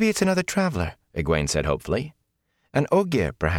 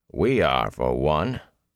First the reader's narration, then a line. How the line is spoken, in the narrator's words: the warder said dryly